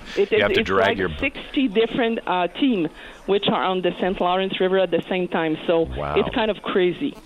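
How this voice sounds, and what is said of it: Charming accent. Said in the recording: “I love your accent. I find it very, very charming.”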